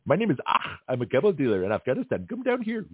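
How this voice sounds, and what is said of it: Put-on Arab accent, admittedly weak. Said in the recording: “I got to work on my Arab accent anyway.”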